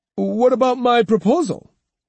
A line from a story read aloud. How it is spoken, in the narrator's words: Yasuma, thrown into confusion, blurted